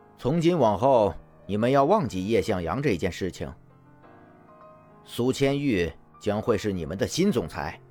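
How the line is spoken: Very cold, mocking. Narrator (Chinese): 蒋泽旭……心里面忍不住的嘲讽的笑了一下，然后十分冰冷的说着

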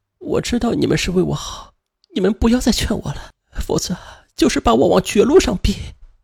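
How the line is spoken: Crying. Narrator (Chinese): 吕霞她却哭着说道

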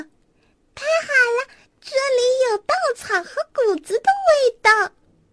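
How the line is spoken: Sudden cry. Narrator (Chinese): 突然，小鸡叫道

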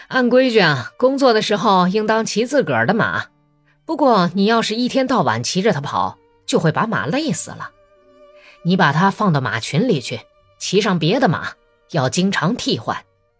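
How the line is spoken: Cheerful, advising. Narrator (Chinese): 笑盈盈地给米什卡出主意说

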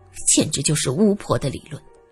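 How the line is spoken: Low sneering voice. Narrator (Chinese): 萧琴面露冷笑，他低声说着

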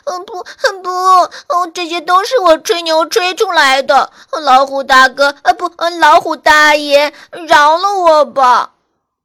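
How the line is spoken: Crying little dog. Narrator (Chinese): 小花狗一边哭一边说

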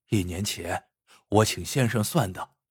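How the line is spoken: Low voice. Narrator (Chinese): 王七 低声说道

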